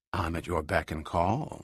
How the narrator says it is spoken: Max replied in a husky voice

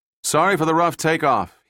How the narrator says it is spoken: shouted over the engine roar

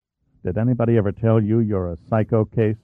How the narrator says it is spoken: Pitt muttered through pressed lips

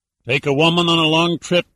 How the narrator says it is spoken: Pitt mused miserably

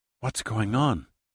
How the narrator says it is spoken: she whispered

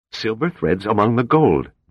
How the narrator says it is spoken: said excitedly

